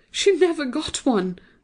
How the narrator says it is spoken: I cried

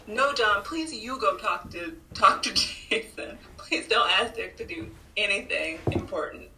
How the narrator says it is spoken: I was literally like yelling at my screen

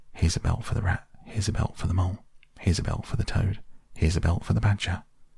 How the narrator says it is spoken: The anxious and laborious rat ... muttering

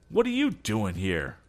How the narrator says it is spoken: Tom cried out

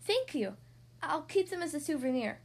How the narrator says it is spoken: Yunhei said happily

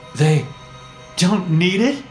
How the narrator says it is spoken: I stammered

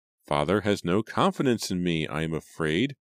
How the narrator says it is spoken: Julia remarked sadly

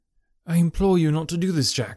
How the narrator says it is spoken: she cried

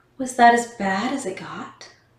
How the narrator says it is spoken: Shannon was horrified, asking in a shaky voice

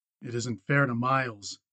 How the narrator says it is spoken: he muttered

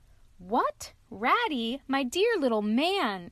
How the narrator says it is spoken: exclaimed the Badger in a quite different voice

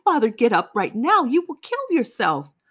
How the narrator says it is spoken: I howled

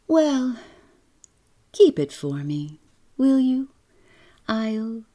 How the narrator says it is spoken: her voice was dreamy as she answered

